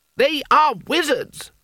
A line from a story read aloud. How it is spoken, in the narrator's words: shouted